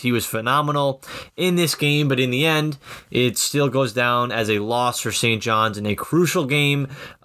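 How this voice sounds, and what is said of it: Voice sounds slightly off, strained. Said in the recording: “my voice sounds a little off ... I was uh, screaming at the Garden for most of that game”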